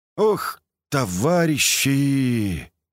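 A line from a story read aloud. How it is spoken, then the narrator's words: Overjoyed breathless exclamation. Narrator (Russian): только и выдохнул Колька, ощущая, что счастье внутри просто не помещается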